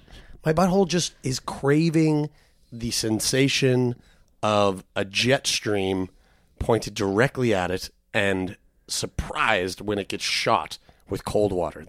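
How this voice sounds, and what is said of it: Hoarse, lost voice. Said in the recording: “I've lost my voice.”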